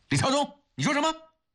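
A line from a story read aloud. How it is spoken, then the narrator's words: Loud, full-throated. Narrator (Chinese): 钱世伟扯开嗓子后找到了感觉，他大声地说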